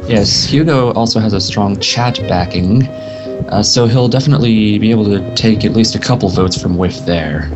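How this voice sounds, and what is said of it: Non-native English accent. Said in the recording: “I don't speak English, okay? ... It's a kick-ass accent that everybody likes to hear in the podcast”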